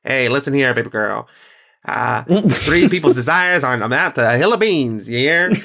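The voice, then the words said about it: Put-on old-Hollywood transatlantic accent. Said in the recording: “Pan-Pacific, Pan-American accent... Transatlantic... That transatlantic accent where it's like”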